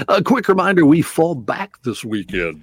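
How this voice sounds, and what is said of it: Radio announcer voice. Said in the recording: “in my announcer voice”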